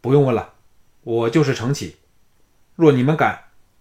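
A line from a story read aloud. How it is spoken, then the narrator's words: Loud. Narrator (Chinese): 那个汉子大声说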